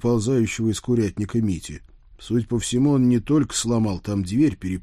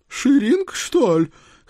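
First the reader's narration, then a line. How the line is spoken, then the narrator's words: Exclamation. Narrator (Russian): Хозяйка воскликнула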